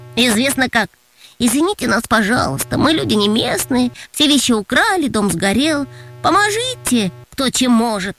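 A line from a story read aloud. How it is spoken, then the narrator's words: Nasal beggar's whine. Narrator (Russian): Затянул Антон гнусавым голосом, подражая попрошайкам из метро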